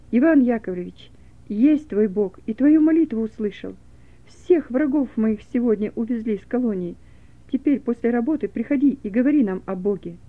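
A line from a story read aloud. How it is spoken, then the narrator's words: Loud announcement. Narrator (Russian): Миша громко объявил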